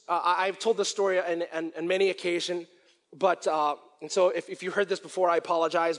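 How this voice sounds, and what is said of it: Strained, failing voice. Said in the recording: “I'm losing my voice right here”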